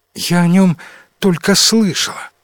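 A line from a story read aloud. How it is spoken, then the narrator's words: Sighing. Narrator (Russian): вздохнула принцесса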